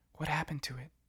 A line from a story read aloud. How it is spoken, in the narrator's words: Clover whispered